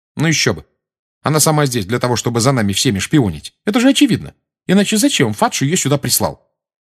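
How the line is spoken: Sharp tone. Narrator (Russian): резким тоном сказала Гермиона

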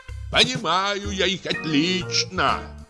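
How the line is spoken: Shout. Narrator (Russian): крикнул Калхас

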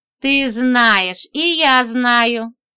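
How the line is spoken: Slow speech, then laughter. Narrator (Russian): сказал он медленно и засмеялся

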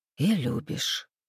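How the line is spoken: Sighing. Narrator (Russian): вздохнул Андрей

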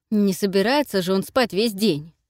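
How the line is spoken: Irritated bark. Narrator (Russian): рявкнул раздраженно

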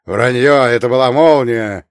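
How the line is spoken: Man barking. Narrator (Russian): рявкнул мужчина в дорогом костюме

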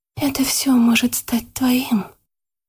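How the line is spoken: Whisper in ear. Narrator (Russian): прошептала ему на ухо Яна

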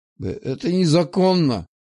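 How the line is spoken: Unsure mutter. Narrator (Russian): пробормотал Захар, но уже не так уверенно

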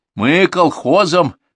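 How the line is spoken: Short laugh. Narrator (Russian): хохотнул он

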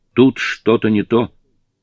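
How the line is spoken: Shouting. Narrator (Russian): закричал Эд

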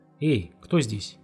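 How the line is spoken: Frightened, angry question. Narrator (Russian): испуганно и сердито спросил Володя

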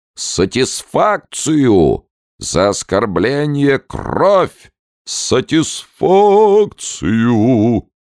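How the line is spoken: High-pitched singsong. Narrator (Russian): Последнее слово ротный пропел высоким голосом

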